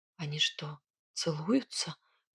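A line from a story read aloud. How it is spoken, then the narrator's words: Whisper. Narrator (Russian): прошептала я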